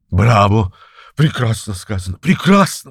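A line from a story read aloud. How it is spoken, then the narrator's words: Exclamation. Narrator (Russian): воскликнул он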